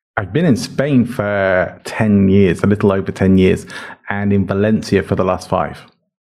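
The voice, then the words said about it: Charming English accent. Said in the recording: “You're going to hear his accent. You're going to love it. You might fall in love with him automatically because it's that kind of accent. ... you're from England, right?”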